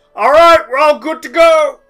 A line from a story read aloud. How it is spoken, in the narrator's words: You hear a shout from the front as Oleg says